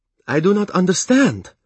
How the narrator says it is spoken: the Narcheska exclaimed in horror

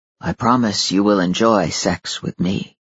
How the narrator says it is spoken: he murmured

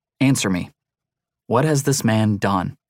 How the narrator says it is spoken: Faintly, her voice came from under the screen of hair

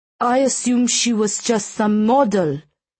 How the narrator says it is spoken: the dealer sputtered

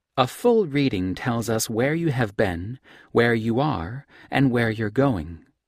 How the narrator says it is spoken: Olivia said

